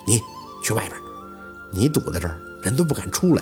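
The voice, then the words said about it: Quiet, hushed voice. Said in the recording (Chinese): “小声的看着宝四说了一嘴”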